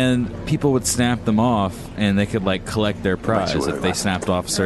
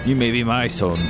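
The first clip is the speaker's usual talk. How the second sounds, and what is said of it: Put-on accent. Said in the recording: “nice accent.”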